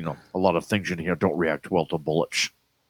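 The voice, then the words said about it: Sean Connery impression. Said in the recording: “good impression”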